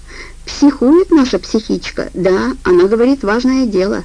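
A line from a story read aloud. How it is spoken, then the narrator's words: Timid explanation. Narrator (Russian): Он робко объяснил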